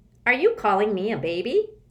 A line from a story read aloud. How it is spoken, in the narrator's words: growled the other